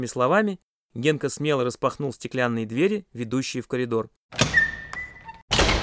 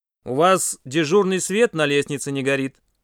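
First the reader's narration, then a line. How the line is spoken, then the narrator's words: Stern bass. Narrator (Russian): сурово пробасил Генка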